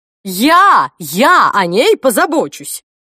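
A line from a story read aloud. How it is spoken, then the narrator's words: Grandmother shouting. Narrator (Russian): выкрикнула бабушка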